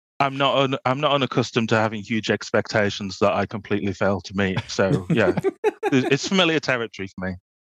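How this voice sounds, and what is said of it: Yorkshire English accent. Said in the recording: “all the way from Yorkshire... lay into that accent more”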